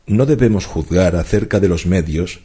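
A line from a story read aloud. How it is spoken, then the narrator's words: Plain. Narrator (Spanish): dijo Dupin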